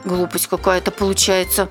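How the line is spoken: Muttering. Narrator (Russian): пробормотала Бука

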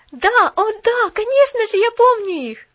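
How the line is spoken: Exclaimed. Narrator (Russian): воскликнула Поллианна

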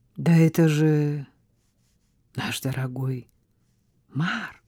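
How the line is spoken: Calm voice. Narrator (Russian): спокойным голосом произнесла Жозе

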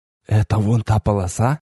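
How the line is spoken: Barely audible clarification. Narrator (Russian): уточнил я, тоже еле слышно

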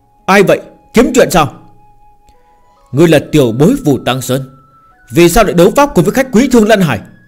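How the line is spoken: Furious. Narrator (Vietnamese): Trưởng lão kia tức giận đến mặt mo cũng biến thành màu đỏ tía

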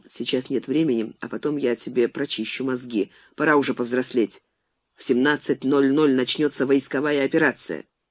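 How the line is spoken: Quiet. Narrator (Russian): Алехин тихо сказал

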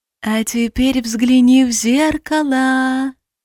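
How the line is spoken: Pleased cooing close to ear. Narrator (Russian): Проворковал над ухом очень довольный голос

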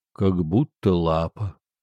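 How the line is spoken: Sad reply. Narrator (Russian): печально ответил дух

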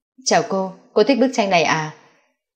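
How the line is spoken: Low question. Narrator (Vietnamese): có người hạ giọng hỏi

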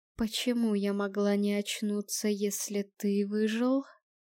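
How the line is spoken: Plain. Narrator (Russian): спросила Эстрид

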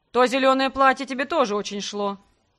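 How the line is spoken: Smirking. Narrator (Russian): хмыкнул он

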